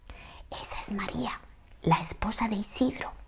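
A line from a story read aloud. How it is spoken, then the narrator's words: Lame man whispering. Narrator (Spanish): me susurró el cojuelo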